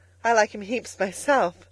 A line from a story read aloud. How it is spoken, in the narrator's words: she cried